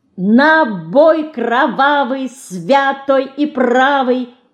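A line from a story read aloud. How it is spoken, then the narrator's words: Silvery ringing cry. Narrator (Russian): Серебристо выкрикивает она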